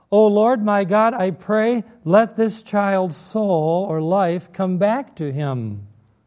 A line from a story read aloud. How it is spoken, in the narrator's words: he cried out to the Lord and said